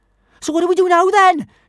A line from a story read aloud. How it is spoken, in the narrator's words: shouted Kamikaze, her teeth chattering